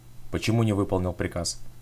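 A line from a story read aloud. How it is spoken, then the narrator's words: Strangely calm, suppressed fury. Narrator (Russian): Странно спокойным голосом, никак не вязавшимся с бешеным выражением лица, спросил полковник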